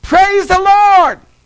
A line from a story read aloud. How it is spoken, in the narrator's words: she would shout out